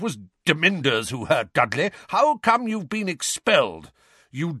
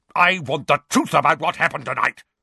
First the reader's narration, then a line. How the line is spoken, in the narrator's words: barked Uncle Vernon